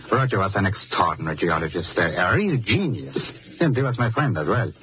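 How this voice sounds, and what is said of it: Czech accent, mistaken for German. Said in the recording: “Herr Zuckland. ... I see my accent has betrayed me again. But you see, I am not German, Mr. Thurston, no. I am a Czech.”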